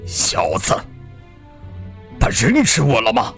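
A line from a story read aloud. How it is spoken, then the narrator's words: Cold. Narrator (Chinese): 塔斯哈冷冷地说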